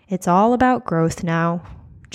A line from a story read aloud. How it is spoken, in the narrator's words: Joe sighed